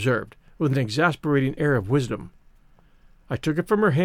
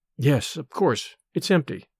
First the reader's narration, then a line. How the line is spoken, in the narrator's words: I muttered disdainfully